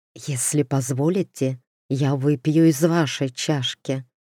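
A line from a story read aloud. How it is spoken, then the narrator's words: Whisper in ear. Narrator (Russian): шепнул ей на ухо мрак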